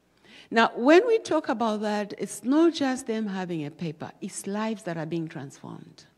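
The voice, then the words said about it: Non-native foreign English accent. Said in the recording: “you will understand my accent is not like yours”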